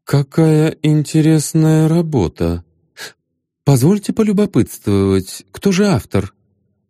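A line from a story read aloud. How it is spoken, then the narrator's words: Confused smiling reply. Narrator (Russian): Растерянно улыбнувшись, Илиади ответил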